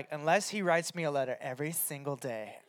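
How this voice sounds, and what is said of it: Sassy girl voice. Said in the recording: “That was my impression of a sassy girl, just with high standards ... You nailed it”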